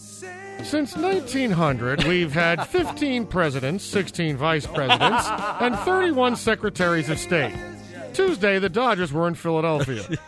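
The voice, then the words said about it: Charlie Steiner sportscaster impression. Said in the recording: “my Charlie Steiner impression reading a highlight as a SportsCenter anchor ... That's totally Charlie Steiner.”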